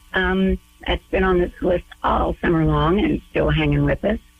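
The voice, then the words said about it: Strained voice, losing it. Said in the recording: “Feels like I'm losing my voice here.”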